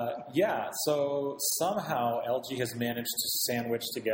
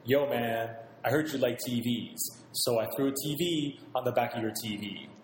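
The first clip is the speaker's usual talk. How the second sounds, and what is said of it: Xzibit impression. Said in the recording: “my best exhibit impression”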